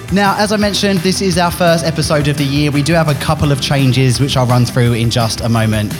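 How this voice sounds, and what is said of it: Essex English accent. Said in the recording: “brought myself back my Essex accent again”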